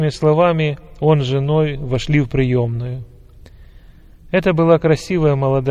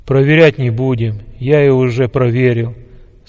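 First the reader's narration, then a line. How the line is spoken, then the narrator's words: Plain. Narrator (Russian): сказал генерал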